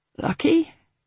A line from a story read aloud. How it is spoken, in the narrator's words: Hal croaked, her throat was still almost too painful to talk